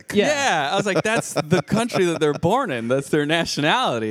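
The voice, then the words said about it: Australian accent. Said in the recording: “an Australian”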